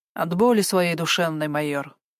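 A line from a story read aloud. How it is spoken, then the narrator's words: Grumbling. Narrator (Russian): проворчал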